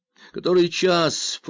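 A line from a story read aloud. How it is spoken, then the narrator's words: Unexpectedly loud yell. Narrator (Russian): проорал Ромеро неожиданно громким голосом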